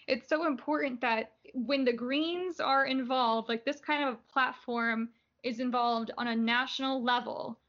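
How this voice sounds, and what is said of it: Strained, hoarse voice. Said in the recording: “<clears throat> sorry, I'm losing my voice.”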